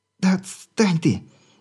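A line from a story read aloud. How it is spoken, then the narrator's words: Barely squeezed out, weak. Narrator (Russian): Еле выдавила она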